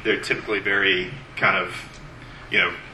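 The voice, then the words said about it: Flat, emotionless delivery. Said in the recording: “blunted affect ... not a whole lot of emotional expression ... that was a terrible impression”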